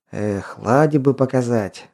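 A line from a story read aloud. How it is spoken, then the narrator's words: Sighing. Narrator (Russian): вздохнул Константин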